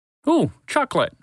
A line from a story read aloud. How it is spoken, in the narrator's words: Ringo said excitedly